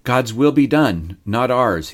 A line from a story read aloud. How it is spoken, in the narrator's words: said